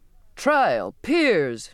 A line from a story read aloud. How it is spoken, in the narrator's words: the captain cried mockingly